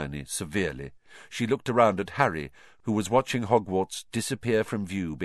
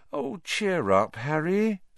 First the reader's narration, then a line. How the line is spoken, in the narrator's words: said Hermione sadly